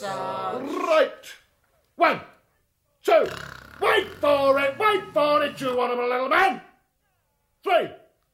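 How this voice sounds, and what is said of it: Shouting drill-sergeant commands. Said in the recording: “keep shouting ... I'll continue shouting until you fall asleep”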